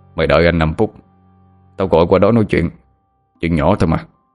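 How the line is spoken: Gruff voice, smirking, over phone. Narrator (Vietnamese): Cái giọng ồm ồm của người đàn ông đầu dây bên kia cười nhếch mép rồi nói

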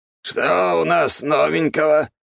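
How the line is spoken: Hoarse rasp. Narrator (Russian): Прохрипел он

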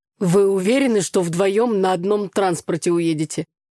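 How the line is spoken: Wry snort. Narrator (Russian): хмыкнул отец

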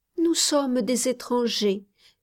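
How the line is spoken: Child's timid reply. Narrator (French): répondit timidement l'enfant

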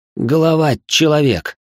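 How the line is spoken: Creaky, rusty-hinge voice. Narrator (Russian): проскрипел я, как калитка с ржавыми петлями

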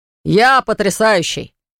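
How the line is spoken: Sudden yell, bearded waiter. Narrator (Russian): внезапно заорал бородатый официант

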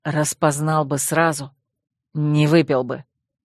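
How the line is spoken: Wolf growl. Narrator (Russian): Рыкнул волк

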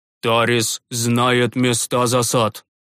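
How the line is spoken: Grim summing up. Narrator (Russian): мрачно подытожил привставший священник

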